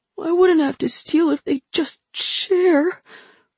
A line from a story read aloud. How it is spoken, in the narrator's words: the boy said plaintively